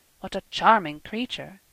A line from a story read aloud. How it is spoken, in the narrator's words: Carl murmured